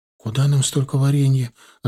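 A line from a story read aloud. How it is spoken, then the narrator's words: Bewildered. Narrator (Russian): растерянно проговорила Галия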